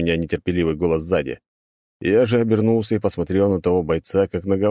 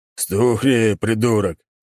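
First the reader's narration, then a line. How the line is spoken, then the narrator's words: Commander barking. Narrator (Russian): рявкнул командир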